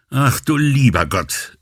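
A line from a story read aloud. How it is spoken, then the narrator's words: Exclaiming. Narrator (German): rief sie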